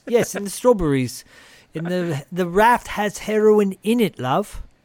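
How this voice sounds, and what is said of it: Put-on accent, fairly good. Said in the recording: “this accent's much better than the one you do for me”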